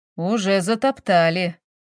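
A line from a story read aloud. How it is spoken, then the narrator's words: Grumbling. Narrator (Russian): проворчал эксперт Афанасий Гаврилович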